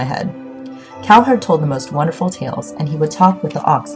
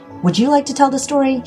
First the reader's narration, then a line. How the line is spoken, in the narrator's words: She snapped